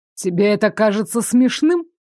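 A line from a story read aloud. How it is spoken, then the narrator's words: Snorting, sardonic. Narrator (Russian): хмыкнул господин сновидений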